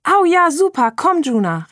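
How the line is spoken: Excited call. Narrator (German): rief aufgeregt

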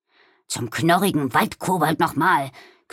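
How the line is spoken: Growling. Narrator (German): knurrte Balduin

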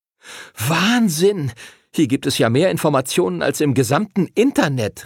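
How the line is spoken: Excited call. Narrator (German): rief Arthur aufgeregt

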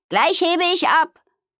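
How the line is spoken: Calling out. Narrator (German): rief Amalia

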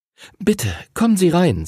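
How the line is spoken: Trembling voice. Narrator (German): sagte Henrys Mutter mit zittriger Stimme

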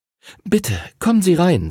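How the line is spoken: Trembling voice. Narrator (German): sagte Henrys Mutter mit zittriger Stimme

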